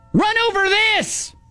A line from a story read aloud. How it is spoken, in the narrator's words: you yelled back